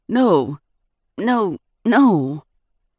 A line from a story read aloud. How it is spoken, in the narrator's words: he stammered